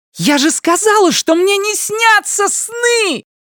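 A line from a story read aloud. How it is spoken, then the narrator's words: Shrill hysterical scream. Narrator (Russian): Пронзительно, даже истерично закричала она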